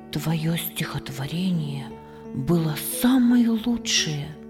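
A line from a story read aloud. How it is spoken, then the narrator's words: Whispered. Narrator (Russian): шепнул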